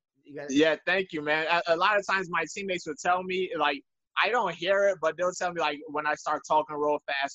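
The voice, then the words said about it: African accent, slightly Jamaican-sounding. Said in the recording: “you have a cool accent, you know, because it's still African, but it's a really cool accent ... You sound a little bit Jamaican, though.”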